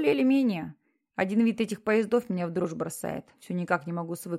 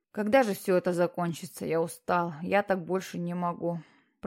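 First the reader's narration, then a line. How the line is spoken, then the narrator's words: Dejected voice. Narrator (Russian): произнес Питер подавленным голосом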